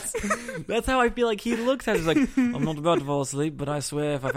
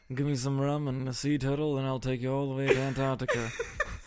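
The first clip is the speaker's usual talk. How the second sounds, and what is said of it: Sleepy Johnny Depp impression. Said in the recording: “Does your Johnny Depp have to be, like, on the verge of falling asleep? ... my Johnny Depp impression”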